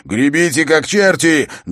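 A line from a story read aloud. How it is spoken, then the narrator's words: Barked command. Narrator (Russian): гаркнул Эрок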